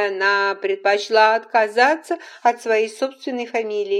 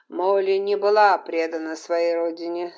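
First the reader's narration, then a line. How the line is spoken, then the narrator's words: Calm. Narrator (Russian): сказал Колум спокойно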